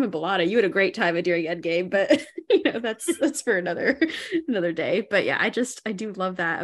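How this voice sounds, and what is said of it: Usual voice. Nothing is said of it.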